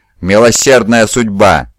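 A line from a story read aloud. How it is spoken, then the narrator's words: Shouting. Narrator (Russian): закричал Утизар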